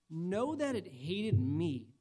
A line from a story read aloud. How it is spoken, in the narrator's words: Jesus says,